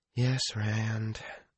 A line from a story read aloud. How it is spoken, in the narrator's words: she sighed and said